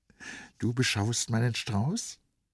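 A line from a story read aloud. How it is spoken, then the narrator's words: Plain. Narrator (German): sagte Vrenchen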